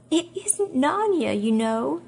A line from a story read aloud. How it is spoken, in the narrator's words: sobbed Lucy